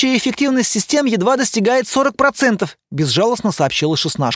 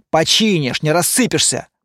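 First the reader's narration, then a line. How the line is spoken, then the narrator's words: Grumbling. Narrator (Russian): проворчал Лайер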